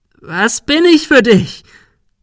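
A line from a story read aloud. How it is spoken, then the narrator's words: Shrieking. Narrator (German): Sarah kreischte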